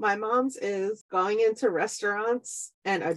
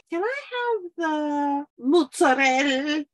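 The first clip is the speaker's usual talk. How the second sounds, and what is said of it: Exaggerated, mispronounced Italian-style accent. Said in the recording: “adopting the accent, but like doing it wrong”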